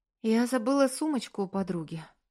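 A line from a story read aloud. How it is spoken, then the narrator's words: Announcing. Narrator (Russian): оповестила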